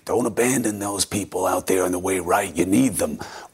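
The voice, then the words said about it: Imitates another person's voice. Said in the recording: “your Steve Bannon impression”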